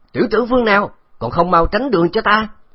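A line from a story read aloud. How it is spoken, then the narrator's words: Angry loud shout. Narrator (Vietnamese): Kẻ dẫn đầu toán quân giận dữ quát lớn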